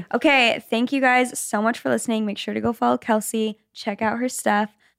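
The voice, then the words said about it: Strained, fading voice. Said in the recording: “My voice is slowly. I'm slowly losing my voice.”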